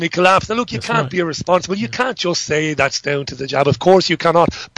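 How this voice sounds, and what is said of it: Irish accent. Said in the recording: “I'm obviously an Irishman. I don't just put on this outrageous accent.”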